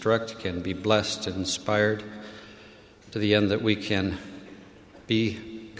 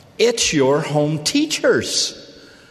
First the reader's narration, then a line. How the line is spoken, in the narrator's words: Her friend cried out